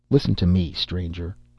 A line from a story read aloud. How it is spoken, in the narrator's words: said the emperor sharply